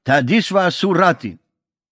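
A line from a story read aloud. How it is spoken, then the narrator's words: Shouting into phone. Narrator (German): brüllte der Ministerpräsident ins Telefon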